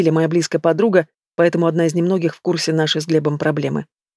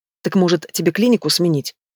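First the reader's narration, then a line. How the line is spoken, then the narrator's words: Defiant retort. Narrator (Russian): С вызовом бросает Лили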